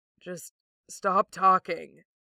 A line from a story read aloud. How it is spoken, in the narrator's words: the other rasps quietly